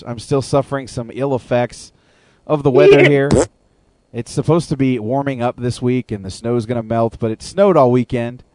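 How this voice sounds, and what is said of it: Hoarse voice. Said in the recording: “excuse my voice tonight, I'm feeling a little hoarse.”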